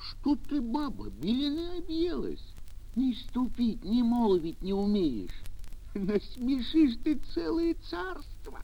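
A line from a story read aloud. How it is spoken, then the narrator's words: Frightened pleading. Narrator (Russian): Испугался старик, взмолился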